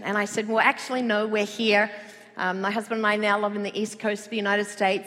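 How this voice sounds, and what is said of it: Australian accent. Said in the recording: “I have an Australian accent”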